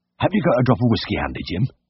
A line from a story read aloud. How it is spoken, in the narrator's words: quavered